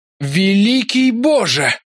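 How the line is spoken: Loud exhale. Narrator (Russian): шумно выдохнул Ларри

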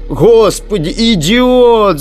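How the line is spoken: Shouted. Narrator (Russian): закричал Немец

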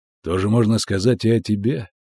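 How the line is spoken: Calm. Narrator (Russian): спокойно ответил ведьмак

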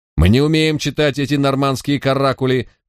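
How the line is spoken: Male voice shouting. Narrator (Russian): выкрикнул еще один мужской голос

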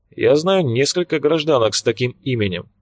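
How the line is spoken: Dry reply. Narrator (Russian): столь же сухо ответил Келюс

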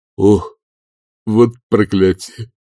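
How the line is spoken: Groaning. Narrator (Russian): простонал он

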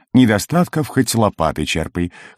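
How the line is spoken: Dwarf's chuckle. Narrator (Russian): хохотнул карлик

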